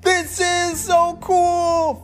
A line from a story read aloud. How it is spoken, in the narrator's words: shouted